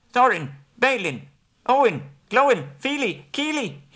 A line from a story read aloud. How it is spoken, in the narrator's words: cried as loud as he could